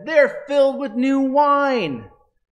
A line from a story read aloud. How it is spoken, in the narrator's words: mocked what they heard and said